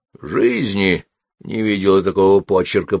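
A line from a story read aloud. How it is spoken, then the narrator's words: Grumbled. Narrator (Russian): пробурчала она черепу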